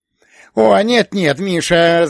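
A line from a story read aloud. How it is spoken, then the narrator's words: Laughing. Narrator (Russian): засмеялся режиссер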